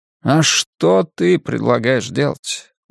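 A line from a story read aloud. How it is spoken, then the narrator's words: Tired. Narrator (Russian): устало спрашивает Крейзи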